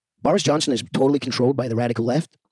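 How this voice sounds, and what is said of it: Put-on American accent. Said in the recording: “in an American accent”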